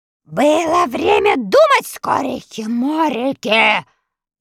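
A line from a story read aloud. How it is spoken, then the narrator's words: Furious shouting. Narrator (Russian): заорал разъяренный Страшила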